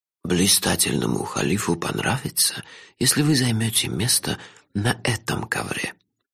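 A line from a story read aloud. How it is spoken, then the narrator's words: Faint whisper, old man. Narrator (Russian): еле слышным шепотом подсказал старик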